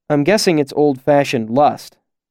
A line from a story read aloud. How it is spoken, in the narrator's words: I said in my roughest tones